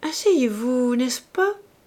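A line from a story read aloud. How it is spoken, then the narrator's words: Murmured. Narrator (French): murmura-t-elle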